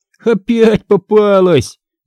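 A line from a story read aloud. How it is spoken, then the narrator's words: Laughing loudly. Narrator (Russian): захохотал он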